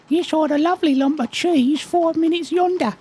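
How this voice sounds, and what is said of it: Put-on accent, done well. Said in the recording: “you're very good at the accent.”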